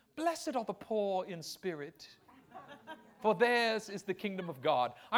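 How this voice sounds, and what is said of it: Put-on British accent. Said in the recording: “I hear it with a British accent”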